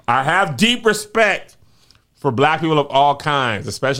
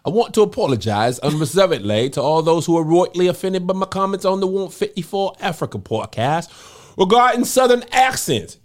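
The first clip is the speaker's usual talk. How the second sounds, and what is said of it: Put-on British accent. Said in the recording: “I should have been doing this in a British accent the whole time.”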